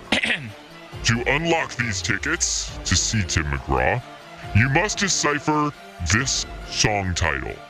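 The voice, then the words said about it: Spooky, scary put-on voice. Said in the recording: “put on my scary voice.”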